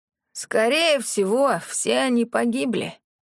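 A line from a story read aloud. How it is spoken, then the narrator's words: Hoarse voice, crow cawing. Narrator (Russian): раздается за ее спиной хриплый голос, сопровождаемый вороньим карканьем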